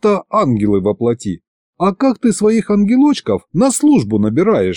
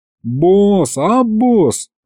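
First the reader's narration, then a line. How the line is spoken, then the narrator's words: Melancholy drawl, demon. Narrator (Russian): Как-то тоскливо протянул бес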